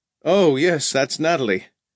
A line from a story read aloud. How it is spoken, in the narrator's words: Sloat laughed